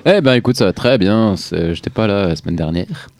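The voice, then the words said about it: Put-on Swiss French accent. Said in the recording (French): “Je sais pas pourquoi je prends un accent suisse”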